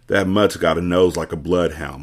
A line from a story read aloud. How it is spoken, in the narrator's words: Morgan said